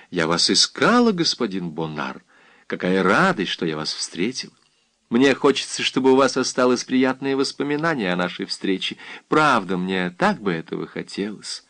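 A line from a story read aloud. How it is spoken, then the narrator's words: Tender. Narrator (Russian): ласково сказала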